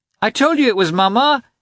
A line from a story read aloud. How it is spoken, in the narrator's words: he shouted to the governess